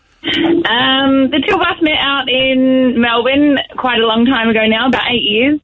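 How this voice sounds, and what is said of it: Australian accent. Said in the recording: “you're the sexier sounding one ... your lovely Aussie accent”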